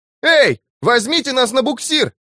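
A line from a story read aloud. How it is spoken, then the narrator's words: Furious shout. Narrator (Russian): яростно крикнул Роберто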